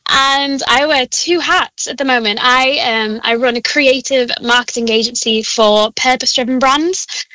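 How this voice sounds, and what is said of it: Liverpool accent. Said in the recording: “I'm from Liverpool. If you can't hear that accent”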